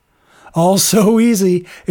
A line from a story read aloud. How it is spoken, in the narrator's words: exclaimed Sloane under his breath